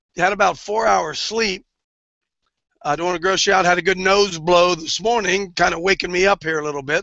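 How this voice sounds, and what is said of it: Hoarse, recovering voice. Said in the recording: “I'm getting my voice back a little bit, although I yelled myself hoarse”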